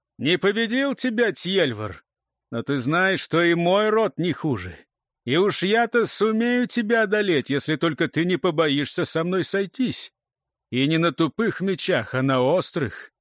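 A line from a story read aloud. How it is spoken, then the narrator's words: Sudden loud. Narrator (Russian): вдруг громко сказал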